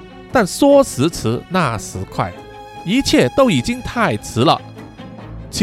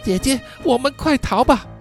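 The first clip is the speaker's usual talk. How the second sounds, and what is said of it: Frightened, whispered plea. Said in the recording (Chinese): “害怕的从后拉着小月的衣角，小声的跟她说”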